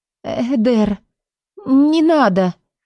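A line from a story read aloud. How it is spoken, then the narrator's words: Unsure mutter. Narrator (Russian): неуверенно пробормотала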